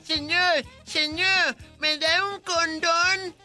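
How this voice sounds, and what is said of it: Mix of child and old-man voice. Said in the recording (Spanish): “¿Esa una voz de niño o de viejito? ... una mezcla ... entre los dos.”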